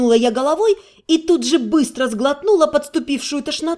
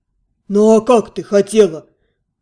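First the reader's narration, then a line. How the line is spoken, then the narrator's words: Snorting. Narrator (Russian): Он хмыкнул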